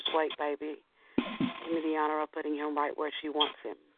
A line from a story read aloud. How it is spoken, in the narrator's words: she whispers